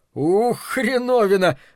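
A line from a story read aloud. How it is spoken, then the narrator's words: Howling laugh, shivering. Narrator (Russian): взвыл со смехом, весь дрожа и ежась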